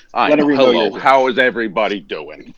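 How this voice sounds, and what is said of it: Exaggerated New Jersey accent. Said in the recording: “you just did a New Jersey accent on top of your New Jersey accent”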